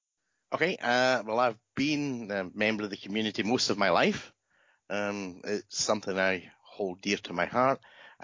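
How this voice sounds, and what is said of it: Scottish accent. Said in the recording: “as people might be able to tell from your accent, you are from Scotland.”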